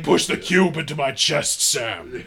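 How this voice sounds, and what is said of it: Optimus Prime character impression. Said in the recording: “His voice is so good.”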